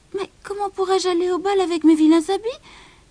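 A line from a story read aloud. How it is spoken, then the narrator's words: Exclamation. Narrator (French): s'exclama-t-elle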